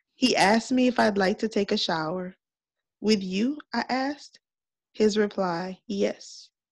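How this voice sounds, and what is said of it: Sultry, seductive reading voice. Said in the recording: “Put my sexy voice on ... Oh, my Mr. Kevin voice”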